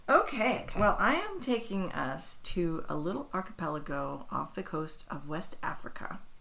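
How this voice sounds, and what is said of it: Husky voice. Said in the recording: “my husky voice today. I am not sick. I don't know why my voice sounds like this.”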